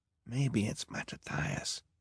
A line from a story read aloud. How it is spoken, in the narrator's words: Klaus whispered